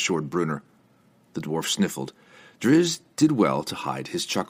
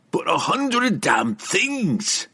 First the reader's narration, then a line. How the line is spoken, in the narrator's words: Brunner roared, his fit of sentimentality predictably short-lived